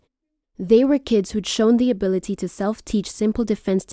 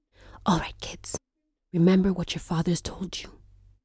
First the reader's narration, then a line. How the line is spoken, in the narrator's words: Twale whispered